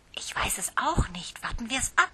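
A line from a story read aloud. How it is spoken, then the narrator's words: Aunt whispering. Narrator (German): flüsterte Tante Susi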